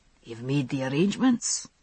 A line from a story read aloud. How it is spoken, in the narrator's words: I heard Dougal say in an undertone to Rupert